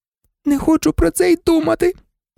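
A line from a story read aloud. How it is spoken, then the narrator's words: Groaning. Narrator (Ukrainian): простогнала Герміона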